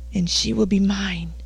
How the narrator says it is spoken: muttered hoarsely

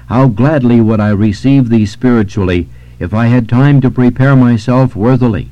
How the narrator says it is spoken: she exclaimed

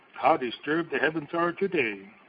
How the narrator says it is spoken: people exclaim

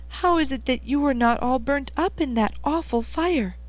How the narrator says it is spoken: she cried

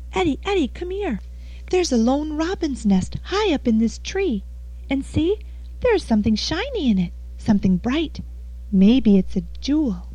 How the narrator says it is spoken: Marie called excitedly

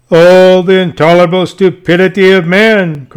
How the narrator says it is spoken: cried out Demosthenes then, with every mark of displeasure

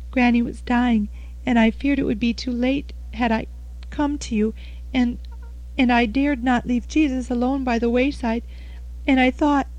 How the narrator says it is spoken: she sobbed

